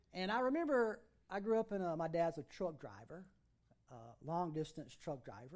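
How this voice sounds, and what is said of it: Wilson County regional accent. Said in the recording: “I grew up in Wilson County. That's where I get this accent from.”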